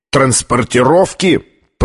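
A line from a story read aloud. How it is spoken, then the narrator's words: Thundering voice. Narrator (Russian): прогремел Колер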